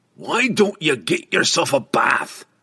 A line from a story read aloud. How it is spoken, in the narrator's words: Brunner roared